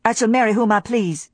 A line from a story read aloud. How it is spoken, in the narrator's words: said Scarlet coldly